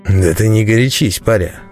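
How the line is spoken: Almost tender, smiling. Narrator (Russian): почти ласково заулыбался Аникей

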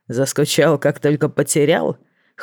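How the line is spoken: Mental snort. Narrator (Russian): хмыкнул мысленно

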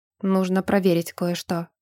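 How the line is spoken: Wooden tone. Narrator (Russian): деревянным тоном ответил Леотанари

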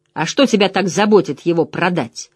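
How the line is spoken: Angry question. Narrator (Russian): зло спросил Мэтт

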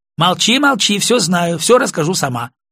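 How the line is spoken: Rapid speech. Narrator (Russian): быстро заговорила Ирина

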